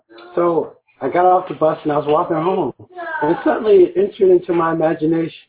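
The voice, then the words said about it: Hoarse, strained voice. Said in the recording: “my voice is hoarse, so I sound strange. ... Like I'm choking a duck in my throat.”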